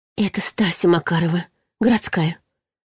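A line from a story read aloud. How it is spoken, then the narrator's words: Woman whispering. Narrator (Russian): шептала уже другая женщина своей знакомой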